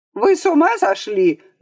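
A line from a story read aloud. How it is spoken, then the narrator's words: Shrill shout. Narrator (Russian): закричал визгливым голосом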